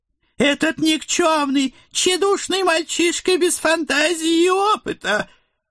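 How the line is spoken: Elderly woman, nervous giggling. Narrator (Russian): Нервно хихикая, наша пожилая гостья

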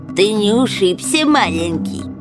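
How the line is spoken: Nasal, mocking tenderness. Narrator (Russian): с издевательской лаской произнес чей-то гнусавый голос

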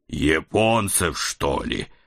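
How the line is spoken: Muffled moan. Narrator (Russian): простонал я, закрывая лицо

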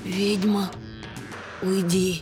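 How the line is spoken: Unexpectedly quiet plea. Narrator (Russian): Неожиданно тихо попросила графиня

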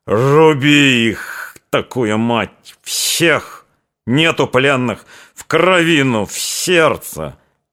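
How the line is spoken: Exhausted barking shout. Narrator (Russian): закричал выдохшимся лающим голосом

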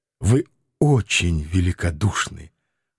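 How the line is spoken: Trembling grateful voice. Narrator (Russian): дрогнувшим голосом поблагодарил Анатоль Францевич

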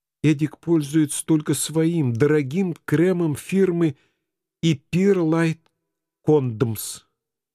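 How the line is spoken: Trembling voice. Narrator (Russian): дрогнувшим голосом пояснила Памелла

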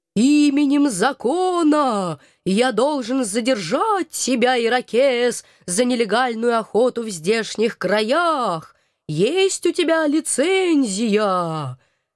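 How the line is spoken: Sepulchral shout in ear. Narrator (Russian): За могильным голосом злого духа крикнул он мне в самое ухо

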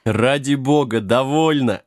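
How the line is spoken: Laughing. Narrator (Russian): рассмеялся Джек

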